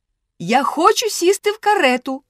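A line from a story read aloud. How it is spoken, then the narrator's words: Little girl shouting. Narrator (Ukrainian): закричала маленька розбійниця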